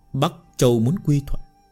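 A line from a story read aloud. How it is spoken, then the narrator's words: Frowning mutter. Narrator (Vietnamese): Long Hưu cau mày lẩm bẩm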